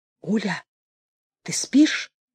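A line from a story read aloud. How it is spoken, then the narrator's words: Whispered question. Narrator (Russian): шепотом спрашивала Анатолий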